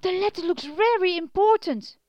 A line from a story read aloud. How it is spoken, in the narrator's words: shouted, gasping for breath